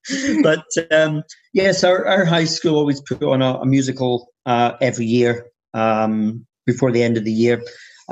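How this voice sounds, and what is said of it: Strong Scottish accent. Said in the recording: “I am Scottish... my accent has got a bit stronger”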